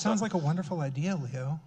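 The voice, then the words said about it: Mock public-radio announcer voice. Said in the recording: “That's my NPR voice.”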